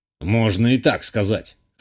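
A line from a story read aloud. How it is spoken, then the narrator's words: Old man's snort. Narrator (Russian): хмыкнул старик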